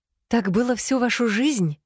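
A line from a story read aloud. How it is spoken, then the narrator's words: Strained, forced out. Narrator (Russian): выдавила она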